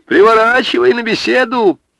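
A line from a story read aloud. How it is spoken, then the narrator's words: Shout. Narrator (Russian): Егорша крикнул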